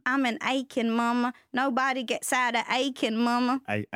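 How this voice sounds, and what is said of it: Exaggerated put-on Southern accent. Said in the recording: “I need you to never do that southern accent again ... that might be as bad as my British accent”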